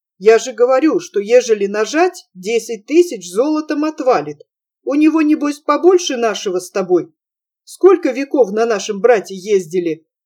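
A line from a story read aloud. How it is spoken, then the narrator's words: Hurried, pleased. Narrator (Russian): заторопился Сачик, обрадованный тем, что Цыбуля так спокойно принял его намек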